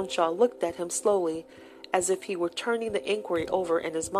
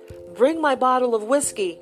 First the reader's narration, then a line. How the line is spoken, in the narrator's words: he called out